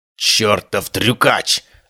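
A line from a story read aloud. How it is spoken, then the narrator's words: Growling while dodging. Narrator (Russian): рычал убийца, едва уворачиваясь от очередного выстрела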